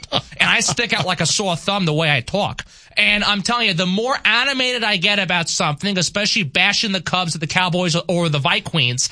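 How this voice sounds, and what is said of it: New York East Coast accent. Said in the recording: “I have a New York East Coast accent.”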